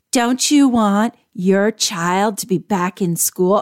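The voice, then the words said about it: Put-on Southern accent. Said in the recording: “now she didn't have a Southern accent, but I'm channeling this podcast”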